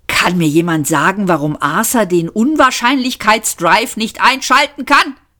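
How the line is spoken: Shouting. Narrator (German): schrie Trillian

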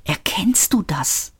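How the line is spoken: Whispered. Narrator (German): flüsterte Seyfort

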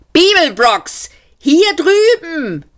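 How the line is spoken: Calling out. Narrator (German): rief Seyfert

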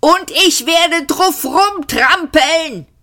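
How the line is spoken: Shouted. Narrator (German): schrie Arthur

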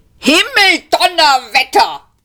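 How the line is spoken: Roaring. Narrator (German): brüllte er

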